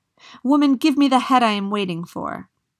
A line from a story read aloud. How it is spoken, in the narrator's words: cried out